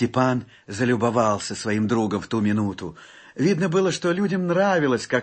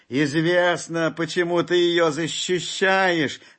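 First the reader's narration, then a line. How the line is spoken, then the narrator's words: Mischievous shout. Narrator (Russian): кто-то крикнул, озорничая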